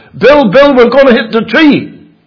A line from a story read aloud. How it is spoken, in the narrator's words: I shouted